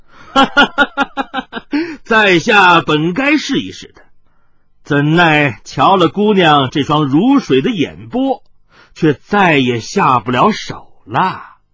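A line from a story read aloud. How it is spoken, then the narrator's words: Sudden loud laughter. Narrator (Chinese): 少年秀士……突然大笑着说道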